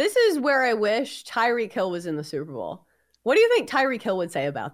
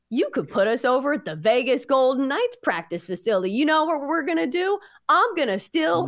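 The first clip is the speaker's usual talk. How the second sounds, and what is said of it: Imitates another person's voice. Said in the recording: “your Tyreek Hill impression. ... We got a Tyreek Hill impression”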